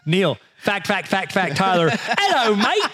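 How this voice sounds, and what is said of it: Put-on Australian accent. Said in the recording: “this is my Australian accent”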